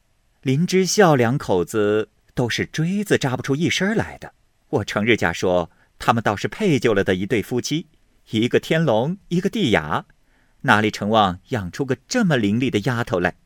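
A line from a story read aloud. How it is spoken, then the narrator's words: Laughing. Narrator (Chinese): 又笑道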